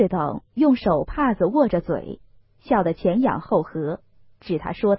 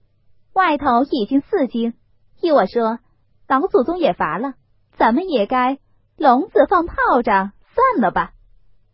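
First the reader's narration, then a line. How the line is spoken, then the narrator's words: Laughing. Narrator (Chinese): 凤姐儿笑道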